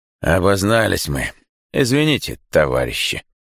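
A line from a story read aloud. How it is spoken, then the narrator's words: Older man speaking hoarsely. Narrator (Russian): хрипло говорит тот, что постарше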